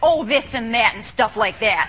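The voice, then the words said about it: Fargo-like Midwestern accent. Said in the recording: “She's got that crazy accent. It's a little bit Fargo. It's a little bit Reese Witherspoon in Election.”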